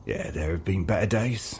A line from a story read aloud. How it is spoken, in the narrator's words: he breathed